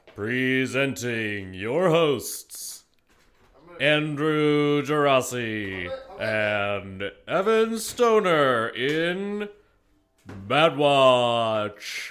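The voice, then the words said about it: Radio announcer voice. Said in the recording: “This is my radio voice.”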